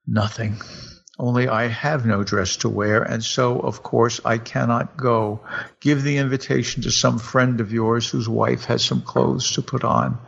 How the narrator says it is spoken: by a violent effort, she controlled herself and answered in a calm voice

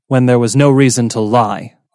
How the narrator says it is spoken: Ruhaya snapped

